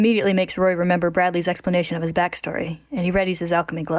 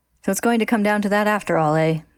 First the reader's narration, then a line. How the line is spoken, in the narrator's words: the doctor says with a sigh